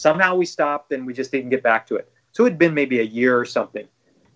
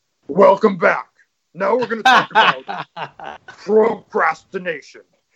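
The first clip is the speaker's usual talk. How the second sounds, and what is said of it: Imitates another person's voice. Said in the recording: “here comes Tony Robbins' voice ... That's a good impersonation.”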